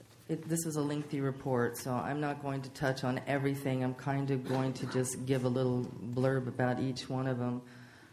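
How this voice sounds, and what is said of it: Strained voice, nearly losing it. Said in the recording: “I'm going to do the best I can without losing my voice today and ask that you indulge me as I get to the end of this illness”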